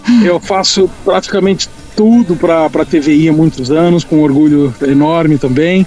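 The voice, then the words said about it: Brazilian São Paulo Portuguese accent. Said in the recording (Portuguese): “meu sotaque paulista ... é português com mel”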